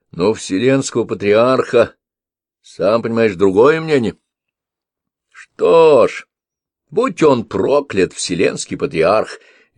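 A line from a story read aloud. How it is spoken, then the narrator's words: Cheerful declaration. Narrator (Russian): весело заявил Лардис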